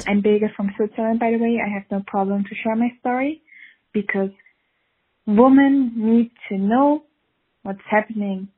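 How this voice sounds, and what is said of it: Swiss accent. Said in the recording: “accent from Switzerland sounds like, so not at all what I expected. Sounds almost like my accent.”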